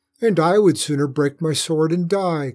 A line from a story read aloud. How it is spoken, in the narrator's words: cried, weeping